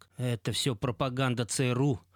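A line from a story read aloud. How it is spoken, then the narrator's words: Shouting into ears. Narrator (Russian): кричал захмелевшим гостям в ухо отец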